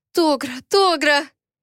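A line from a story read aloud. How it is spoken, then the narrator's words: Sobbing. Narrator (Russian): Я не смогла сдержать рыдания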